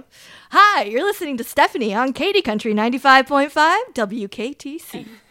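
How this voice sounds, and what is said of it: Upbeat drive-time radio DJ voice. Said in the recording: “A lot of bit of drive time radio. ... Not everybody gets that impression.”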